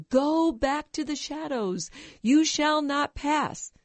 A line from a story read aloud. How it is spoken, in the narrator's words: he yells